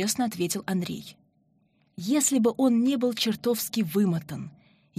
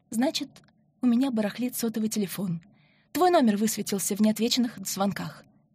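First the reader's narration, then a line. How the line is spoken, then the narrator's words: Hurried speech. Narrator (Russian): торопливо проговорила Марина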